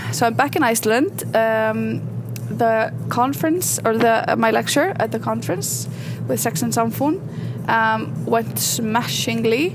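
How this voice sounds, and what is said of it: Icelandic-accented English, fast speech. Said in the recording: “that's probably my accent and how fast I speak ... I'm not articulate enough”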